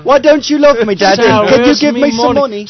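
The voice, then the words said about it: Put-on British accent, child's voice. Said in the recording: “In that British accent.”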